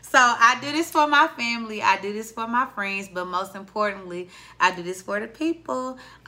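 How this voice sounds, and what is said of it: Southern US accent. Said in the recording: “The Southern accent that y'all tune into every time.”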